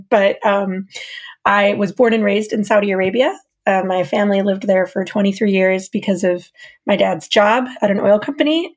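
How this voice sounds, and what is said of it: American accent. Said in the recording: “My accent gives me away. I am American.”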